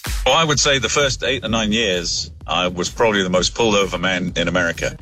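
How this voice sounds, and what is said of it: English accent, not American. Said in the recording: “what was that accent, though? ... That was not an American accent, was it? ... He was English, sure.”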